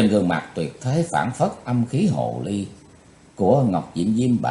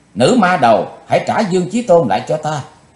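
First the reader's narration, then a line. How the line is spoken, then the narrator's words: Shouting. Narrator (Vietnamese): Quỳnh Giao đã hét lên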